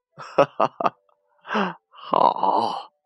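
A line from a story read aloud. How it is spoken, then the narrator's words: Laughing. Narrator (Chinese): 外公笑着说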